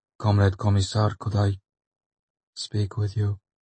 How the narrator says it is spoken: Artyom asked in a toneless voice

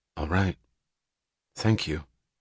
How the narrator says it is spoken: She said gravely

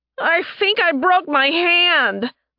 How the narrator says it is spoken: the wolf girl yelped

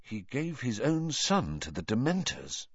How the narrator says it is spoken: asked Harry quietly

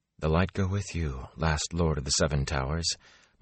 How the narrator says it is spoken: Moraine said almost too softly for Rand to hear

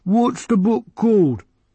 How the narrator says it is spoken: The librarian sighed

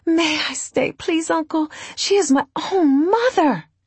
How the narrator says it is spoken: she said pleadingly

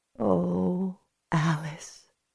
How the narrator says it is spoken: she whispered

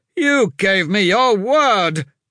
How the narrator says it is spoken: his lordship shouted

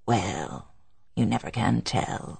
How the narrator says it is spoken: returned Hurstwood gently

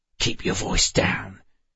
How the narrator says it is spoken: Sharon hissed

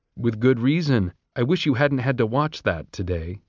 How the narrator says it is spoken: he said

